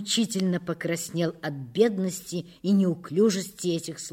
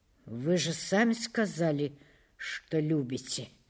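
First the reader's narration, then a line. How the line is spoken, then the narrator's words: Mumbled. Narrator (Russian): пробормотал Улесов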